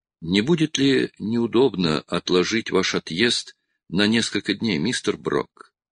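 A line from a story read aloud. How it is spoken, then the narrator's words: Hesitant question. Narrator (Russian): неуверенно спросил Кулум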